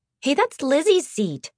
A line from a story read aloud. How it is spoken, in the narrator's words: Mariana scoffed